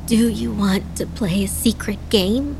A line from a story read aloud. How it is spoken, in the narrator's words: Adana asked, her voice raspy